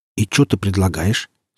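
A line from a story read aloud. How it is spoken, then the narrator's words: Forced calm question. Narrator (Russian): спросил я спокойно, как мог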